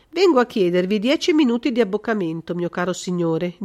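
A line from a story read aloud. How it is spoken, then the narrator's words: Very calm voice. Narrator (Italian): disse Holmes con la voce più tranquilla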